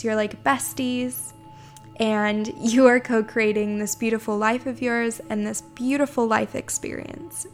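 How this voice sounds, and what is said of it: Slightly hoarse voice. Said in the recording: “my voice is a little hoarse. ... I have not been feeling too great the past few days”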